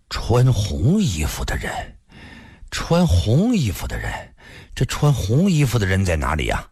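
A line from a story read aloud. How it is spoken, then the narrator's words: Dazed, low voice. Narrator (Chinese): 一个人湿淋淋的……低声说道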